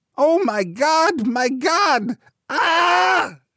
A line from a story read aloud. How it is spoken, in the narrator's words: it rose to a scream again